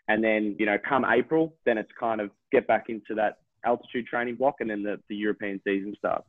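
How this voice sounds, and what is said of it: Strong Australian accent. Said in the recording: “you're definitely the most Australian person I've ever talked to ... you take the cake for Australian accent”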